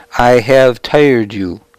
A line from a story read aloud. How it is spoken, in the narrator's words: I said